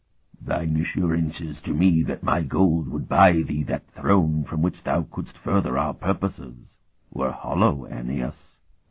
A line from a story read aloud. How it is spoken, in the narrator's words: Otha was saying in that gurgling rumble